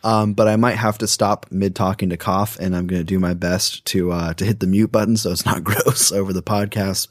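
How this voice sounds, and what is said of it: Deeper, sick-sounding voice. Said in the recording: “I'm a little bit under the weather right now, so I'm sorry if my voice is a little bit deeper and harder to listen to.”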